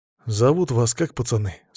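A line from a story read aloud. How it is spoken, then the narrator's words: Plain. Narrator (Russian): спросил я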